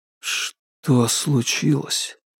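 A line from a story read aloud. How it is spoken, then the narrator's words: Barely audible question. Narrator (Russian): еле слышно спрашивает Соколов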